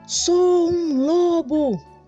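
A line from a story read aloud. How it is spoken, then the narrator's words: Shout. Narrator (Portuguese): gritou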